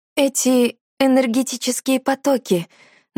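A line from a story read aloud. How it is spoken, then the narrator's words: Hoarse voice. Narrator (Russian): начала я осипшим голосом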